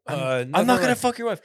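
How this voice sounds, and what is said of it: Mixed Japanese-Canadian put-on accent. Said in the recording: “what accent did you think you were doing there?... Japan and Canada combined”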